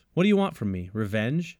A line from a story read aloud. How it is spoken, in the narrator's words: David asks